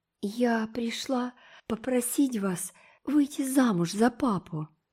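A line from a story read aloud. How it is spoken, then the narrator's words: Breathless. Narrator (Russian): выдохнула она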